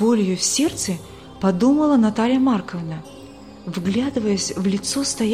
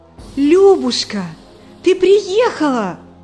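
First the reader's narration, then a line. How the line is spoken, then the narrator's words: Joyful exclamation. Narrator (Russian): воскликнула Наталья Марковна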